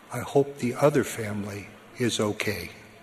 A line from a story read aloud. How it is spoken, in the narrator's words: his wife quietly said